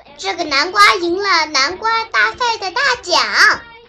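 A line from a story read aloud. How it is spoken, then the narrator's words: Shouting. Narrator (Chinese): 戴斯喊起来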